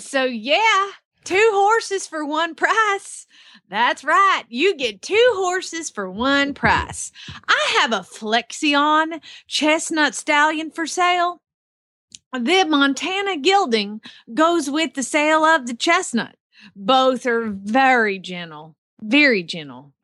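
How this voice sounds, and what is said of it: Put-on Oklahoma southern accent. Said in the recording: “it sounds a lot like your southern accent ... It's Oklahoma. They're southern there.”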